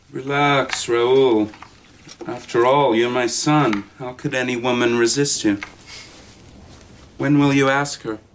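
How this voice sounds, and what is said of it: Obviously American accent. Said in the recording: “we're not doing anything in the accent department ... why is no one French? ... he's so obviously American”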